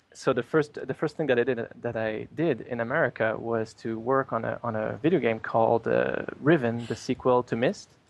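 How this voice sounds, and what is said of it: French Canadian accent. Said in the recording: “I'm Canadian, by the way. If you can't tell my accent, it's French Canadian.”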